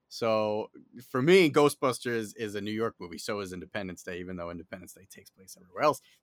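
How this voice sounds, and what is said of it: New York accent. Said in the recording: “if you can't tell by my accent, I am based in New York City”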